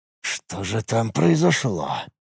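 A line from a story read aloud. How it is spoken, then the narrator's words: Muttering to himself. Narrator (Russian): пробормотал Юрт себе под нос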